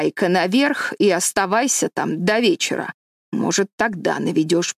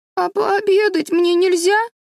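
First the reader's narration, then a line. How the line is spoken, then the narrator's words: Whining. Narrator (Russian): захныкал Дэви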